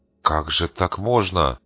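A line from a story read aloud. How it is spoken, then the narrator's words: Grumbled mutter. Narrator (Russian): буркнул Рыжий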